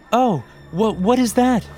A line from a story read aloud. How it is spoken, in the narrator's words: She stammered